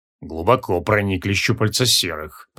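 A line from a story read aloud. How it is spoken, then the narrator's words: Muttering. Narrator (Russian): пробормотал Кейкуон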